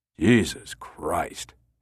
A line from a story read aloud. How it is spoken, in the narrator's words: Hale sighed